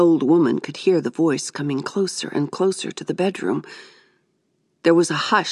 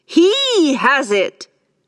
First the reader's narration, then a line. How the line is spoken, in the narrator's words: she declared triumphantly